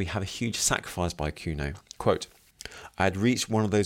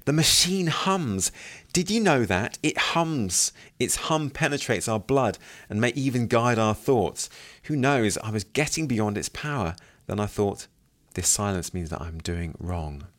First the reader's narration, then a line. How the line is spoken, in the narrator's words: He exclaims